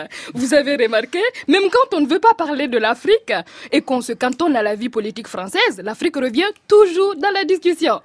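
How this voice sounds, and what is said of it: African accent. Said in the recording (French): “mon accent africain revient ... ma formule de la pilule pour l'accent français”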